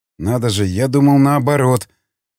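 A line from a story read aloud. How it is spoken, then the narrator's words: Grumbled. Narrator (Russian): проворчал Васнецов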